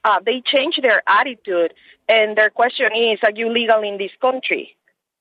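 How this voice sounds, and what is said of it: Heavy Hispanic accent. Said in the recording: “being a white female Hispanic lady ... they hear my heavy accent”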